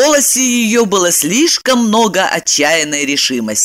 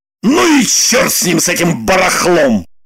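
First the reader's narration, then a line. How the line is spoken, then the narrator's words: Loud bark. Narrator (Russian): Гаркнул Роман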